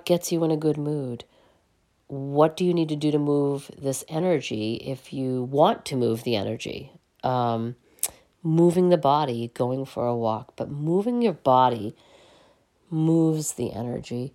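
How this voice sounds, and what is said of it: Voice sounds unwell, under the weather. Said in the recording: “I do apologize for my voice this week. I am a little bit under the weather as I record this”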